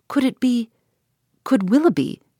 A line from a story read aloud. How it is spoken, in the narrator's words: cried Eleanor